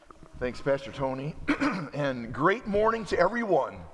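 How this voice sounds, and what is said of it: Emotional, tight choked-up throat. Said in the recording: “I'm getting a little emotional. When I get emotional, my throat kind of clams up on me.”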